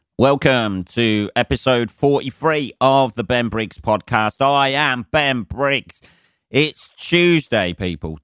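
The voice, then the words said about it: Hoarse, sore-throated voice. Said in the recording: “I'm feeling a bit shitty today... I don't know if you can hear it in my voice... to sort my voice out... painful and sore mouth and throat conditions... I've got some sort of cold”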